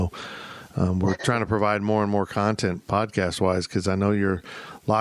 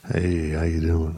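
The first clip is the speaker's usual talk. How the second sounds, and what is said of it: Put-on exaggerated seductive voice. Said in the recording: “Should I use a sexy voice for her? ... That's just creepy voice.”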